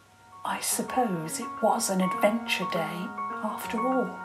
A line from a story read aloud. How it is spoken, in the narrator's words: Queen Mummy whispered to King Daddy